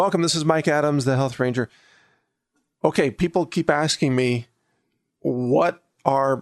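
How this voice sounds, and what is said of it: Usual voice. Nothing is said of it.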